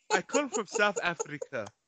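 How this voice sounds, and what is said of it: Put-on African accent. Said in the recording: “she has an African accent”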